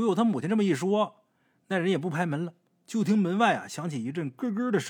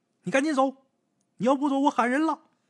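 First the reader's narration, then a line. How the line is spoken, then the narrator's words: Mother's bold shout. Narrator (Chinese): 鬼友他母亲大着胆子喊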